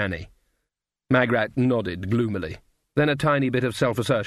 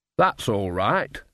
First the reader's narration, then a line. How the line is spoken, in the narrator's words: said Nanny